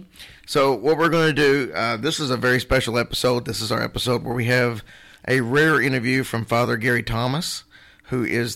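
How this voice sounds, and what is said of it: Cracking voice from a cold. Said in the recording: “I have a horrible cold and my voice is probably going to snap, crackle, and pop”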